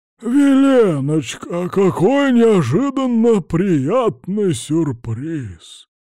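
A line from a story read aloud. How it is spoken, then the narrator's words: Hoarse bass voice. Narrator (Russian): сиплым басом сообщил он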